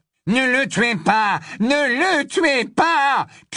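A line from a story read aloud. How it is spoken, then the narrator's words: Shouted. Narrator (French): cria Malfoy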